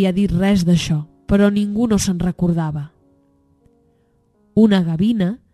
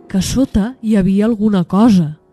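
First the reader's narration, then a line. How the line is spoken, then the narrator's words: Polar bear exclaiming. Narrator (Catalan): va exclamar l'os blanc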